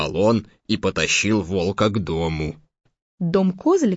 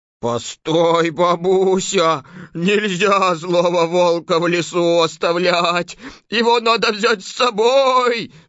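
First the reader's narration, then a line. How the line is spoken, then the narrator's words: Little goat yelling. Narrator (Russian): завопил козлик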